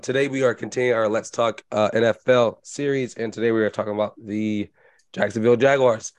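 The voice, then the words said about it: Sick-sounding voice. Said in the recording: “apologizing for my voice ... sorry about my voice. I am sick”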